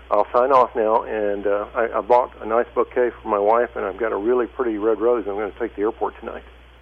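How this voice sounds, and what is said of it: Choked-up, emotional voice. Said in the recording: “I'm kind of getting choked up”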